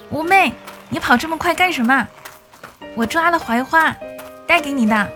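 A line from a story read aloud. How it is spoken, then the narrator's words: Father shouting, running. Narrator (Chinese): 爸爸在后面追着喊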